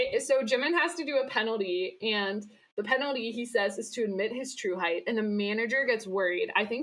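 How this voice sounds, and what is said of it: Usual voice. Nothing is said of it.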